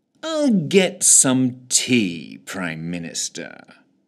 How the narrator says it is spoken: he purred, in what he believed was a comforting sotto voce

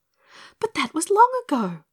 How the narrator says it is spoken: explained Dorothy breathlessly

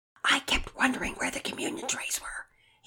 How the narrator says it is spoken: he whispered loudly

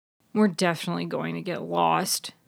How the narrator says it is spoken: Bud grumbled

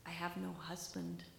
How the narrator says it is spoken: whispered

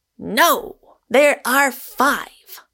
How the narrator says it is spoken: thundered Moon

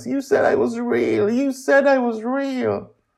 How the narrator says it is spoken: cries

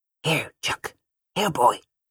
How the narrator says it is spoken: said in a harsh whisper

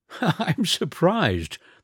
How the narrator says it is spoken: the Baron laughed

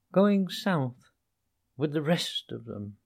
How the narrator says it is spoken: murmured the rat in a dreamy monotone

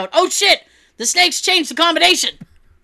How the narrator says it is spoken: The dude in front of me yelled out

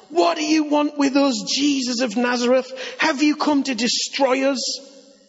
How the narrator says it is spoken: He was possessed by an evil spirit, and he cried out

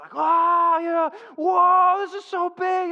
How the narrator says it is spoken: You just hear these screams

